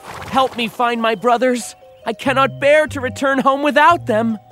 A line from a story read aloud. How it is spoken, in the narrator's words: the youngest brother begged the dwarf